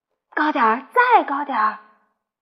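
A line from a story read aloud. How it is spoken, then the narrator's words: Whispering. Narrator (Chinese): 我对胡小图小声说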